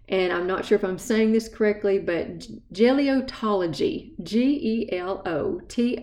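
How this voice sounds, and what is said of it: East Tennessee accent. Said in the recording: “that's my East Tennessee accent”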